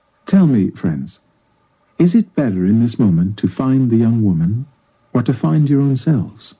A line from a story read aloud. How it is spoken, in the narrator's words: The Buddha looked calmly at the young men and asked